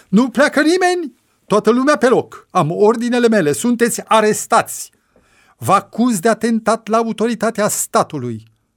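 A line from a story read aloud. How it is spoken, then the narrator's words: Agitated shouting. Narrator (Romanian): a început să se agite și să strige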